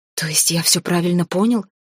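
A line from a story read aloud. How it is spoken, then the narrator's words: Hissed, elf father. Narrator (Russian): прошипел эльфийский папаша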